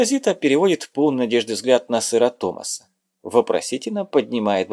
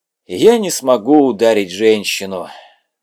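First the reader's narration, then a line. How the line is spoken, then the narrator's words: Sighed, knight. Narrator (Russian): вздохнул рыцарь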